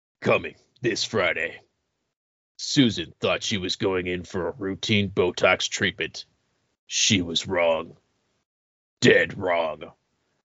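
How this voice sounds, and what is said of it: Dramatic movie trailer announcer voice. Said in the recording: “put on my best movie voice guy”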